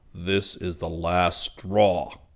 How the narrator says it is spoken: Zircon bellowed

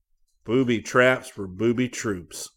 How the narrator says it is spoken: Corporal Depardo had cursed bitterly

